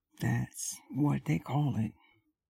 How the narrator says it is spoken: said the woman querulously

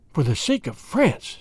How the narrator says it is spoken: said Doyen, reiterated Chauvelin earnestly

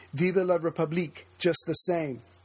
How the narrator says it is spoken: one conservative senator, who had voted no, cried

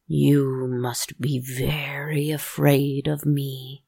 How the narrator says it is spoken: the monster puppet growls

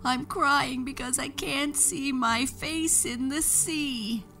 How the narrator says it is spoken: sobbed Moon

